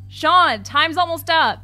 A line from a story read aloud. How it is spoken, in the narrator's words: yell out